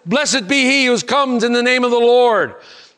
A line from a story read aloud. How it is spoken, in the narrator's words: They shouted